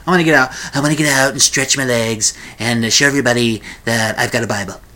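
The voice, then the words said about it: Imitates another person's voice. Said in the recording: “like my Seth Meyers impression of Donald Trump”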